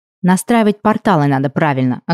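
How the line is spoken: Snapping retort. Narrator (Russian): огрызнулась

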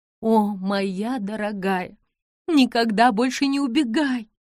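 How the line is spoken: Sobbing. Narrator (Russian): зарыдала она

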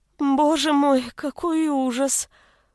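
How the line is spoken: Moaning. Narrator (Russian): простонала Елена

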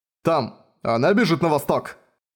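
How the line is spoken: Shouting from driving car. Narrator (Russian): Закричал М с водительского сиденья Хаммера

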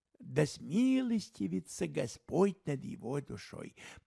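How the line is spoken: Muttered. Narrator (Russian): пробормотал Холмс

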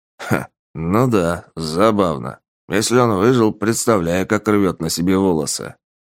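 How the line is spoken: Snort. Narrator (Russian): хмыкнул Полос

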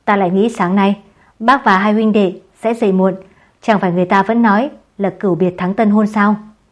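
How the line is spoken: Hearty loud laughter. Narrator (Vietnamese): sảng khoái cười to

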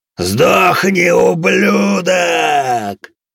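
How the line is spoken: Furious demonic roar. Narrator (Russian): Яростно проревел демон

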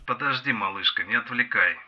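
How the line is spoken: Grumbling. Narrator (Russian): бурчал

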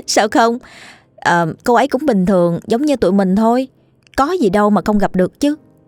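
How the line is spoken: Laughing. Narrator (Vietnamese): Quỳnh Lan bật cười, cô nói

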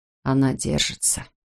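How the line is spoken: Quiet. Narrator (Russian): тихо сообщил тот

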